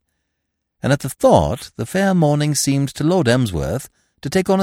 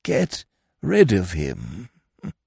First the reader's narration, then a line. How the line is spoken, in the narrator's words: murmured, rolling the blessed words round his tongue